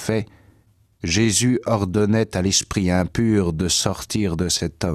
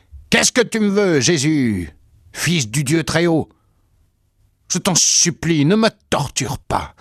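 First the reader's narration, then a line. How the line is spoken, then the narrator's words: Loud howling cry. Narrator (French): il poussa des hurlements en criant d'une voix forte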